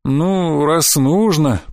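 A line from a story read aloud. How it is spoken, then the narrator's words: Drawl. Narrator (Russian): протянул Баламут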